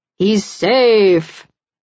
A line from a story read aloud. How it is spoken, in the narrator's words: Razor bellows